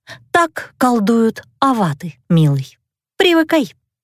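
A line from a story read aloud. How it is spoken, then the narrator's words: Calm. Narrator (Russian): Спокойно сообщила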